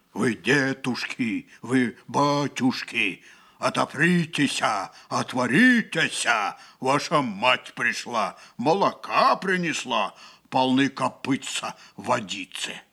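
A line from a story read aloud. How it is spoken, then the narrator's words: Deep thick-voiced shout. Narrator (Russian): закричал своим толстым голосом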